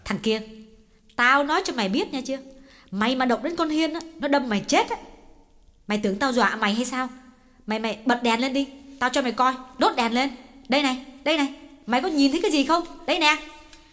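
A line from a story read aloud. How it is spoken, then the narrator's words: Angry scolding threat. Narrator (Vietnamese): Chị ngồi bật dậy, tựa lưng vào vách và nạt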